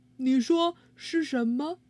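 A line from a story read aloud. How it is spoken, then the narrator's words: Plain. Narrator (Chinese): 他们问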